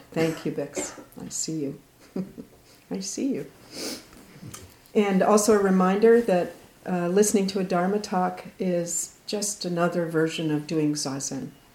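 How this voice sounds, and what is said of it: Hoarse, quiet voice. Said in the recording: “Because of my laryngitis, I can't be as loud.”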